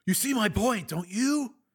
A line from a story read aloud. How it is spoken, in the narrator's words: Higgins said excitedly